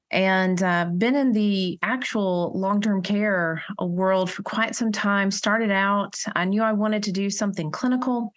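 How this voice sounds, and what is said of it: South Carolina Southern accent. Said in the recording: “I'm a South Carolinian. That accent is real.”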